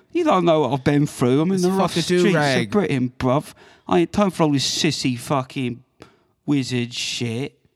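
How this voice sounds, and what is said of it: Put-on gangster British accent. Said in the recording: “That's a funny mixture, isn't like the gangster British guy. ... I guess it works like in Guy Ritchie movies.”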